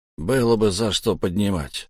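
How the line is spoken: Grumbled reply. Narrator (Russian): буркнул в ответ Лехмусар

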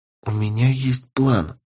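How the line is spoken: Whispered. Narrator (Russian): сказала Полина шепотом

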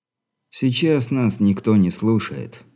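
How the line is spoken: Said calmly. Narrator (Russian): спокойно проговорил брат Адам

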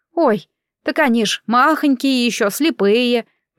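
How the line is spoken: Joyful exclamation, smiling. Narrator (Russian): воскликнула Шура, расцветая чудесной улыбкой

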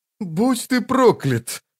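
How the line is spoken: Sighing. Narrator (Russian): вздохнул он

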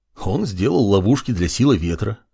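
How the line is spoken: Amused snort. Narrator (Russian): хмыкнул Маркус

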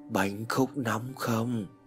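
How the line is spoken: Man whispering in darkness. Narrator (Vietnamese): từ trong bóng tối tĩnh mịch của căn phòng trong đang đóng kín cửa, một giọng đàn ông thì thầm vang lên

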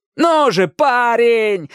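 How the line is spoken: Desperate yelling. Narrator (Russian): орал Иракес, стараясь вернуть Дэнни к жизни

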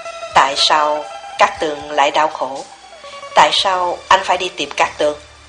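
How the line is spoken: Cold. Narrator (Vietnamese): Nhưng anh thật lạnh lùng nói

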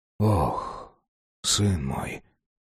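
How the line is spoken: Whisper. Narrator (Russian): прошептал человек

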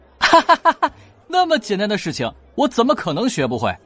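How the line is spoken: Laughing. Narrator (Chinese): 任小素笑道

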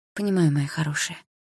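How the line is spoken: Tender whisper. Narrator (Russian): прошептала Полина

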